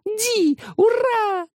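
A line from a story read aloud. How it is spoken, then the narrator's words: Ecstatic yell. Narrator (Russian): Восторженно завопила она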